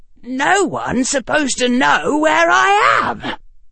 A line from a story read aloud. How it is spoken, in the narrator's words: said Harry, still keeping the shriek quiet